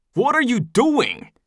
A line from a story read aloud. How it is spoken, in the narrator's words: Eldest screeches